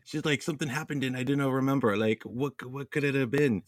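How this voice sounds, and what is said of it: Bad put-on character accent. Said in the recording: “again with the bad Gotti accent”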